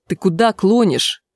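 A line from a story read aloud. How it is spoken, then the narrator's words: Angry question. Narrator (Russian): сердито спросил Трев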